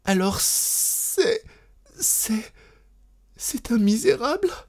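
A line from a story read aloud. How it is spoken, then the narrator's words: Sobbing, overcome woman. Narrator (French): défaillant d'émotion, elle en sanglotant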